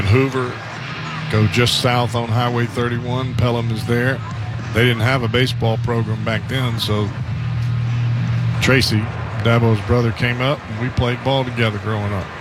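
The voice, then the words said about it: Southern American accent. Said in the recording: “I do speak Southern ... the way that I talk”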